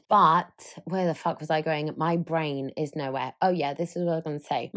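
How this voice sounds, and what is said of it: Slightly croaky voice. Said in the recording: “Is my voice croaky, by the way? I feel like my voice is a little bit croaky, probably from a bit of a heavy weekend.”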